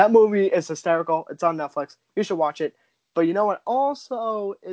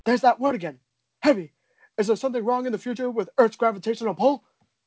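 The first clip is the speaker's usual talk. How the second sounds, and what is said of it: Imitates another person's voice. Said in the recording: “My impression of him didn't come out all that well”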